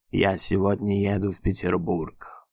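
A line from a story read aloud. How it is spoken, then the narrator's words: Indifferent, weary. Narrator (Russian): равнодушно и устало говорил патрон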